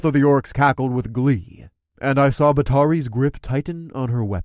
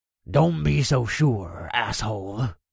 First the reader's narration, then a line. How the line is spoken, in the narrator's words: the orc growled